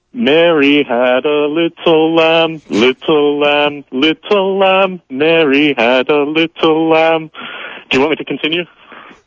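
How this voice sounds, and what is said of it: Foreign accent while singing. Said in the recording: “accent remains firmly in place ... I could still hear it.”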